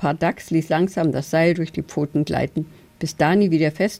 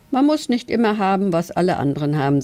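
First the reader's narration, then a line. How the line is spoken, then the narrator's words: Plain. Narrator (German): sagte Dani Ducks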